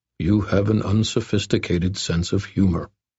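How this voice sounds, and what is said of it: Very deep voice, Native American accent. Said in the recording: “rumbled the figure in a very, very deep voice, the words marked with the almost indefinable clippings of a Native American accent”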